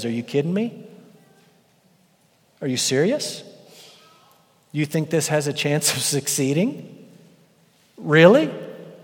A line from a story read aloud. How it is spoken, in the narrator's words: He laughs at their rebellion